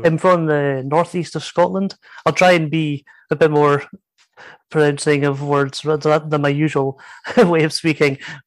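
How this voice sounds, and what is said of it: Scottish accent. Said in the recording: “Stuart has a different accent from me”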